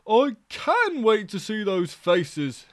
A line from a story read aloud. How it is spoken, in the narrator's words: he exclaimed